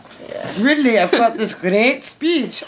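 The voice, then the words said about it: Failed Dutch accent, sounds British. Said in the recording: “I can't do a Dutch accent. ... So he's British now. ... I don't know if it's a Dutch accent.”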